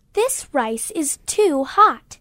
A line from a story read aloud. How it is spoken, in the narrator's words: she exclaimed